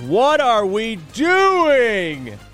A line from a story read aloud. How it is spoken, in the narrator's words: he yells